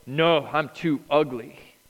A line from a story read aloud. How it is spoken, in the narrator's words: she snarled